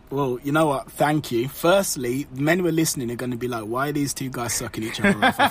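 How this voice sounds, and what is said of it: Smooth British accent. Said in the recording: “you've got the British accent, so you've got the suave, smooth”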